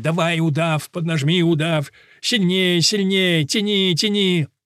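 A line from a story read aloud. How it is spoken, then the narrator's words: Crowd yelling. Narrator (Russian): И все орали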